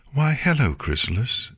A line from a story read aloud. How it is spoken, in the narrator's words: she replied cheerfully